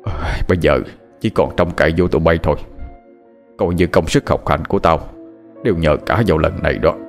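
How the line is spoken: Muttering. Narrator (Vietnamese): ông lẩm bẩm

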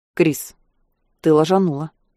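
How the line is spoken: Icy tone. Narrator (Russian): ледяным тоном заявляет Череп

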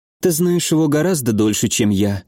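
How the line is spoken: Sad. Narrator (Russian): грустно сказала Адель

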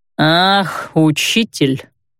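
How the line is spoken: Disrespectful drawl. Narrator (Russian): Без малейшего уважения к профессии протянул второй тюремщик

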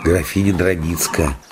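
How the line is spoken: Whisper. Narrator (Russian): прошептал отец Христофор

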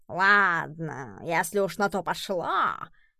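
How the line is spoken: Menacing growl. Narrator (Russian): недобро прорычал Эдисон

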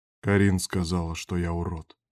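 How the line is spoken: Sighing. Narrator (Russian): вздохнул Берг

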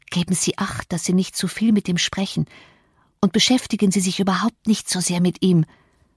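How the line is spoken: Quick whisper. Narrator (German): hatte ich ihr noch rasch zugeflüstert

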